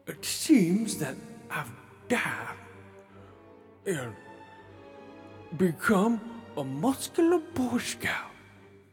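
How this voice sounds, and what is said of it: Voice of an old Black man. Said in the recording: “talking like an old black man”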